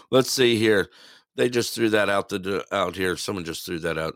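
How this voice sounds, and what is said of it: Slightly hoarse, fading voice. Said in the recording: “I'm actually losing my voice a little”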